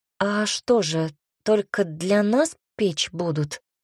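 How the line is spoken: Uncertain question. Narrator (Russian): Чувствуя себя неуверенно, спросила она

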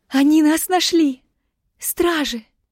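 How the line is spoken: Girl's sob-broken words. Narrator (Russian): Всхлипывания прервали слова девушки

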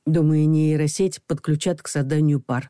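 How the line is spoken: Thoughtful. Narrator (Russian): задумчиво произнес Саша

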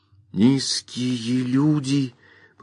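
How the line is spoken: Whisper. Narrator (Russian): прошептал Бобби

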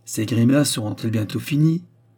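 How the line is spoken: Choking furious outburst. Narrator (French): s'écria Madame Clotilde, que la colère suffoquait et qui ne pouvait plus se contenir

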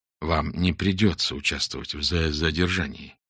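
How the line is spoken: Quiet. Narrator (Russian): тихо сказал ему Фондорин

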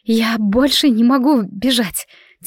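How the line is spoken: Breathless mutter. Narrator (Russian): тяжело дыша пробормотала Мелинда

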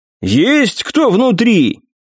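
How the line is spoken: Loud. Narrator (Russian): громко произнес

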